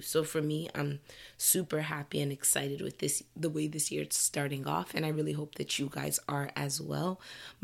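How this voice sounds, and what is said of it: Froggy, slightly hoarse voice. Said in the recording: “My voice is a little froggy because I'm kind of getting my first cold-ish situation of the year ... if I sound really froggy today”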